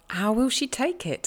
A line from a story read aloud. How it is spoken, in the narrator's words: I exclaimed